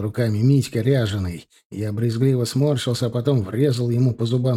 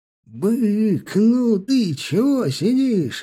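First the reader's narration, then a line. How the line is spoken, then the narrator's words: Driver yelling. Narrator (Russian): орал водила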